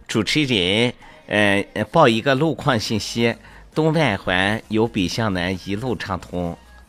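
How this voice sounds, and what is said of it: Seamless switch to a different accent. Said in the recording (Chinese): “你是怎么定位那样无缝衔接口音变化的？”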